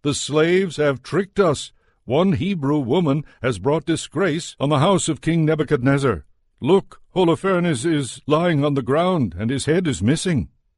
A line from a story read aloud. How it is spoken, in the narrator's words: he rushed out to the people and shouted